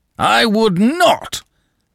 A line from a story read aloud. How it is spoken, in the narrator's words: broke in, bellowing